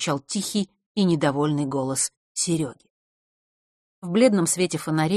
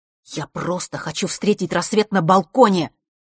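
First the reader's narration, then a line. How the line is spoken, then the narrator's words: Angry. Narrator (Russian): сердито произнес Серега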